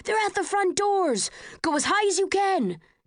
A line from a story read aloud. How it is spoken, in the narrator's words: People in Erudite blue shouting things at each other